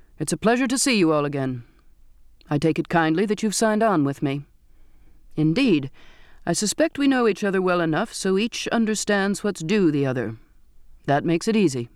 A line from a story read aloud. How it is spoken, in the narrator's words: he said in a clear, firm voice